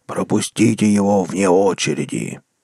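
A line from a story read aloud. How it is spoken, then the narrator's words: Deep inhuman demon voice. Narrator (Russian): демон утробным, нечеловеческим голосом пробасил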